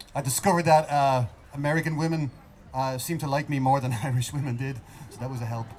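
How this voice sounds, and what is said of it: Irish accent. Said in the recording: “I had this accent... I had a nice accent”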